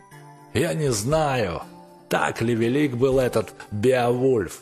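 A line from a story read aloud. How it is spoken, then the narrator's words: Mocking exclamation. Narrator (Russian): воскликнул Люнгви насмешливо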